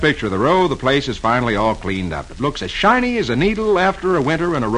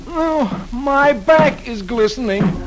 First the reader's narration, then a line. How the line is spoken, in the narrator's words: Dagwood, who's beginning to get tired, groans